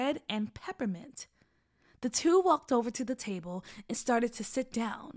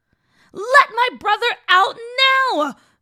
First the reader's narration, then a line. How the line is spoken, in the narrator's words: Gigi screamed